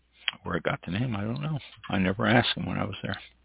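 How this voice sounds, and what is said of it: Noticeable accent that distorts words. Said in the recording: “my accent distorts my words”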